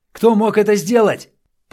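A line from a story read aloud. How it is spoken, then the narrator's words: Shout. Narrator (Russian): прокричал ему вслед журналист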